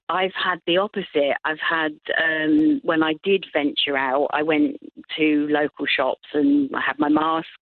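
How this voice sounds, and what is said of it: English accent. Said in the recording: “people hear the accent, and I've had some people say, oh, you're not from around here... my permanent home is England”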